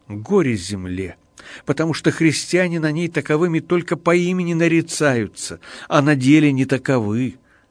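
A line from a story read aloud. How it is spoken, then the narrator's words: Sighing, weeping bitterly. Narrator (Russian): святой, вздохнувши, горько заплакал и сказал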